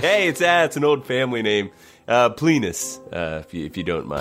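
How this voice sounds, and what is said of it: Inconsistent put-on accent. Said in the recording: “I'm a traveling dagger salesman with an inconsistent accent”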